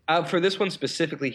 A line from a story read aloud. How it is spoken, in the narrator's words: he yelled